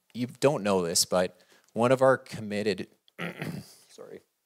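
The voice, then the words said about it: Choked-up, emotional voice. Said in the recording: “get choked up”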